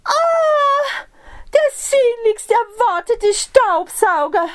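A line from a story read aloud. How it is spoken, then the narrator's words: Called out. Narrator (German): rief sie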